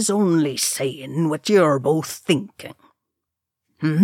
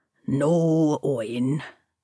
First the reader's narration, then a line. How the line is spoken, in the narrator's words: Dane said wearily